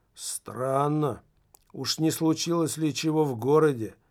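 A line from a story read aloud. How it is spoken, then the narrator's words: Plain. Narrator (Russian): сказал шофер Мулат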